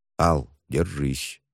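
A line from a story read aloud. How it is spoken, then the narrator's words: Quiet. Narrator (Russian): тихо произнес учитель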